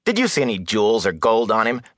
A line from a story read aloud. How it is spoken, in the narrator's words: Matt scoffed